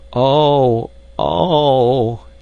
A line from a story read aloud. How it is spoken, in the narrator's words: he moaned